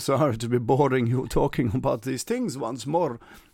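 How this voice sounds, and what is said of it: Put-on vampire accent. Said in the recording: “This was a sort of vampire accent there.”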